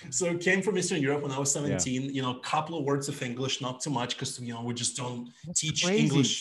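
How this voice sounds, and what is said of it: Thick Eastern European accent. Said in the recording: “Came, from Eastern Europe, as you can probably tell by my thick accent”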